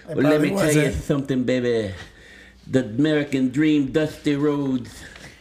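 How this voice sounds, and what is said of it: Dusty Rhodes impression with lisp. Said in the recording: “Dusty Rhodes impression? ... I don't think it was very good ... You gotta have that lisp, so it's a little more difficult.”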